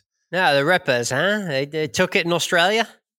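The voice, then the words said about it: Poor put-on Australian accent. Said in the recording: “That was probably about a C-minus Australian accent right there. ... No, that was an F.”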